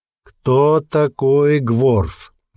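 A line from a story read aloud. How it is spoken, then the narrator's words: Slow, loud question. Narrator (Russian): медленно и громко спросил хранитель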